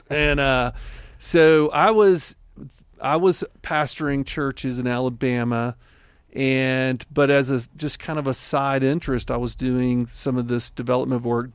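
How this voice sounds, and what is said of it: Rural Southern American accent. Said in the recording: “my hayseed accent”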